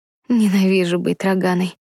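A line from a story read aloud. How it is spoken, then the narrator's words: Complaining. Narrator (Russian): пожаловалась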